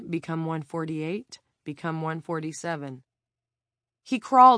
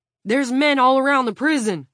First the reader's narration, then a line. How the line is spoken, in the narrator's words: Frank shouted